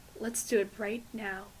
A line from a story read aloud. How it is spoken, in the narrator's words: Ray murmured into her hair